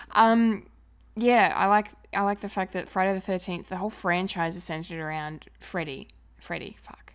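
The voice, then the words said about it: Strained, hoarse, failing voice. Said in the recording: “I'm losing my voice.”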